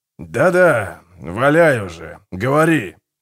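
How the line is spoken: Grumbled. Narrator (Russian): буркнул Гегель

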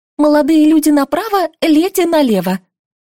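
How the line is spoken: Thin-voiced fairy commanding. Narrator (Russian): скомандовала тонким голоском феечка

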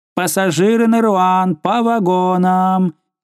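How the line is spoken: Conductor shouting. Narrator (Russian): крикнул кондуктор

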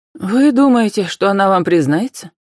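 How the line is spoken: Sad question. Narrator (Russian): печально спросила Вера Николаевна

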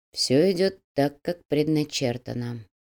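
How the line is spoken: Quiet musing. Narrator (Russian): негромко, словно продолжая свои мысли, произнес Кирилл

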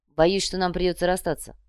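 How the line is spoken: Dry. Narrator (Russian): сухо произнес Грим

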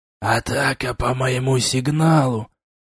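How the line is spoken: Hissed. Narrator (Russian): прошипел я

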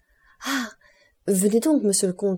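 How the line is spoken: Exclaimed. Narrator (French): s'écria-t-elle

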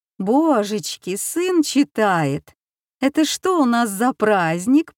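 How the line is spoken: Mock-surprised cooing. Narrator (Russian): проворковала, притворно всплеснув руками

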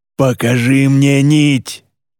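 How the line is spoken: Roaring. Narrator (Russian): проревел кто-то

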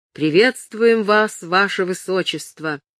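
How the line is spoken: Exclaiming. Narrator (Russian): Джон Дейнкерт, конетабль Кеннелуорта, воскликнул

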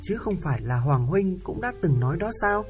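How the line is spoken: Smiling. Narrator (Vietnamese): Chú ăn mày mỉm cười

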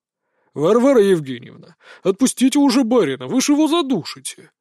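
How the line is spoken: Cheerful yet stern. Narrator (Russian): Вроде и весело, но строго произнес он

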